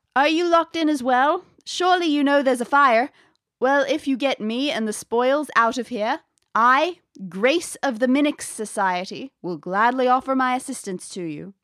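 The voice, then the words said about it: Funny old-fashioned English-American accent. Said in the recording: “A muffled female voice calls in a bit of a funny accent. It's sort of English, sort of American. It's 1600s accent.”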